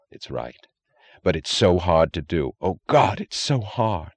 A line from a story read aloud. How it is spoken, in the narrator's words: He moaned